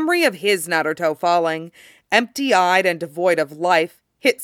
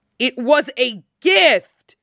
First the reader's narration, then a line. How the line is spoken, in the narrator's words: Kurama screams above Shukaku's roar of frustration